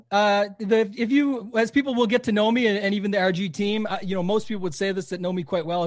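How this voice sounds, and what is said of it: Canadian accent. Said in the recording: “you have an accent ... We can tell you're Canadian. I heard it”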